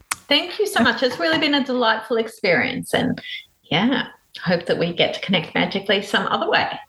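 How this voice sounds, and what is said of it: Australian accent. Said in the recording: “has an Australian accent.”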